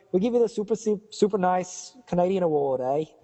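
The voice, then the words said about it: Unconvincing put-on Canadian accent. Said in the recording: “is that a good impression? Good Canadian? ... No. ... You sound like you're from New Zealand. ... Like a Jamaican who's been brought up in New Zealand.”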